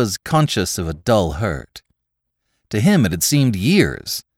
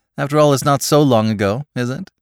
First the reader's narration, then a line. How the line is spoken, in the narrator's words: she laughed